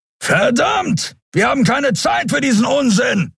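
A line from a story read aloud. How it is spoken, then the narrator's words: Shout. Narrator (German): rief Keru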